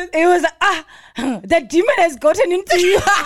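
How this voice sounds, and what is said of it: Imitated father's thick accent. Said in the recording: “It was really thick accent.”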